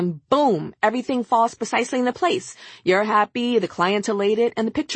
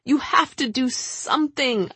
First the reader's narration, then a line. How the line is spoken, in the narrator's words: I'd plead with her